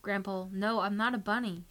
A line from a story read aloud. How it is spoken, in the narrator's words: cried